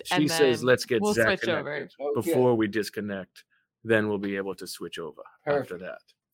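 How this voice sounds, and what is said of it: Put-on accent, committed. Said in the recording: “Your accent is incredible. Love the commitment to the bit.”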